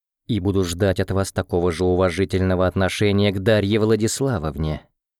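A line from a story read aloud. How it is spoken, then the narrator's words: Calm. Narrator (Russian): спокойно проговорил я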